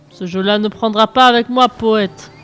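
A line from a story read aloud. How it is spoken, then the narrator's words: Thundering. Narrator (French): tonne Hadès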